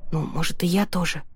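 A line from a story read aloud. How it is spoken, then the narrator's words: Whispering. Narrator (Russian): прошептала я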